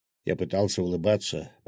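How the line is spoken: Mumbling. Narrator (Russian): пробормотал главный гвардеец Савина

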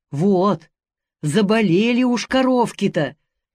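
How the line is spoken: Sighing. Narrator (Russian): Вздохнув, тетя Липа

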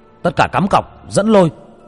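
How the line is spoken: Shouting. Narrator (Vietnamese): Người ngồi ở giữa hét lên

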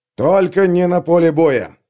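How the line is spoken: Sharp bark. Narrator (Russian): рявкнул Бринт

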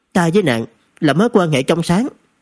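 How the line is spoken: Angry. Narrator (Vietnamese): Trần Thực tức giận

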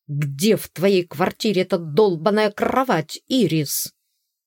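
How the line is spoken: Growled. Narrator (Russian): прорычал он

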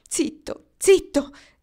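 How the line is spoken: Pleading, stocky man. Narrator (Italian): implorò l'uomo tozzo

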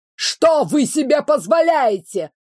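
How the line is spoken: Shouted. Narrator (Russian): выкрикнул он

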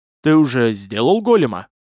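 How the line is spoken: Indignant snort. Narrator (Russian): от возмущения фыркнул

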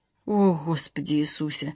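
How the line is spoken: Muttered. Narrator (Russian): пробормотала Александра

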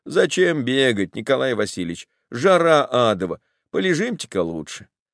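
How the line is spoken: Lazy drawl. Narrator (Russian): кто-нибудь из выпускных лениво говорит

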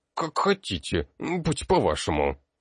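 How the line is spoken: Creaky pained old woman. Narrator (Russian): старуха, скривившись как от зубной боли, проскрипела

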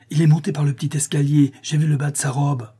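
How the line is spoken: Exclaiming. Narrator (French): s'écria-t-il

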